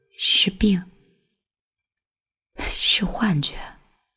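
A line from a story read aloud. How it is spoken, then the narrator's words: Mumbling to herself. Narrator (Chinese): 喃喃自语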